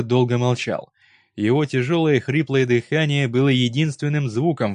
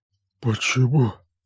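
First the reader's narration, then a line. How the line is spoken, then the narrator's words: Strained, forced out. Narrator (Russian): наконец выдавил он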